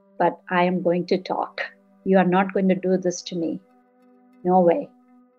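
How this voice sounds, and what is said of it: Strong non-native English accent. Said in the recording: “My English is broken. My accent is bad.”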